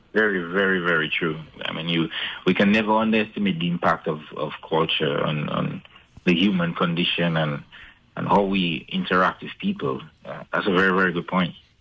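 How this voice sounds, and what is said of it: Dominican accent. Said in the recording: “he's from Dominica as well. Actually, two of you not only have the same kind of accent ... there's a striking resemblance in the voice”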